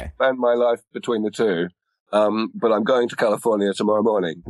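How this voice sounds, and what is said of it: Non-American accent. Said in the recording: “despite the accent”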